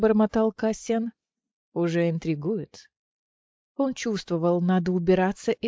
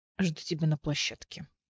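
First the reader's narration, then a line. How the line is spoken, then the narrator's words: Muttering. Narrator (Russian): пробормотал он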